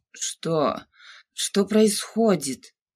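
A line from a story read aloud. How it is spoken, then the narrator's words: Hoarse voice. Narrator (Russian): ее голос звучал хрипло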